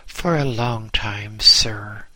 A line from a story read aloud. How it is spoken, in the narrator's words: he said